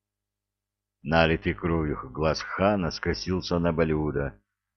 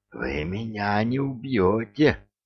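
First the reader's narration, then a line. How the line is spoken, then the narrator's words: Strangled wheeze. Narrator (Russian): просипел упрямец сдавленным голосом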